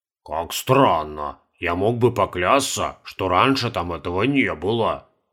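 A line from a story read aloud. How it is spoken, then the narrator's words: Muttering. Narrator (Russian): бормотал Каспар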